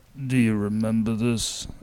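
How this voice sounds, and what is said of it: Imitates another person's voice. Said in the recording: “your Vin Diesel impersonation ... pretty close. ... That's better. ... That's a little more accurate.”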